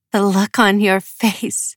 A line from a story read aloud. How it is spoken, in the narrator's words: Hannah said with a laugh